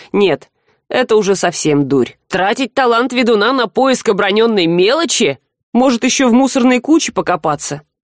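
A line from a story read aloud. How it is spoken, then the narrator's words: Scoffing. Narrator (Russian): хмыкнул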